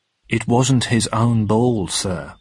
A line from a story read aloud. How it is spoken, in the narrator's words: replied Hawker calmly